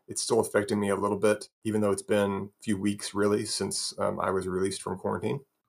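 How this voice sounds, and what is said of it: Slightly raspy voice. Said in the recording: “my voice is a little bit raspy.”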